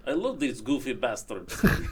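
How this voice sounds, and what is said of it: Put-on Russian accent. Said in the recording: “I don't know if that's a good impression or not. I can't decide. ... It's excellent. My Russian accent is superb.”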